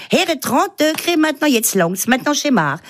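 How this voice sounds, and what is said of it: Comic character with Alsatian accent. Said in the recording (French): “reconnaissable entre mille avec son accent et puis elle se glisse dans la peau des Alsaciens”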